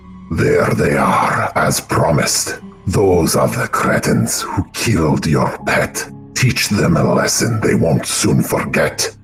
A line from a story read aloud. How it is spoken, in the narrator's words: His words fall like daggers on your senses as he shouts